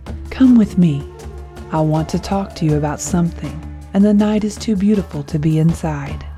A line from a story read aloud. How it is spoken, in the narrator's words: she whispered into his ear